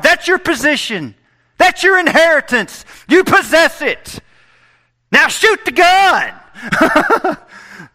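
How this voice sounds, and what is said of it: Yelling. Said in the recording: “why are you yelling? ... Because I can't help it.”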